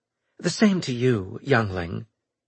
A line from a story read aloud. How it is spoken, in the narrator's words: Nolan said, smiling sweetly